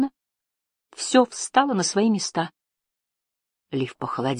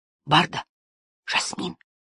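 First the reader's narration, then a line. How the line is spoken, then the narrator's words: Whisper. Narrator (Russian): прошептал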